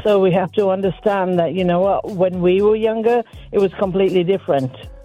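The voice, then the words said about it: Elegant British English accent. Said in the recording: “with your accent, everything you say just sounds even more specialized and perfect ... More elegant, absolutely ... you sound amazing ... I'm from England, Birmingham ... I was going to say Yorkshire ... I want to speak with a British accent, too”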